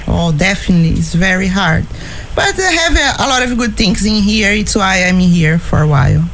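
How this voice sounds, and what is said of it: Portuguese-accented English. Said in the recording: “I love this accent here. ... So what's your native language? ... It's Portuguese.”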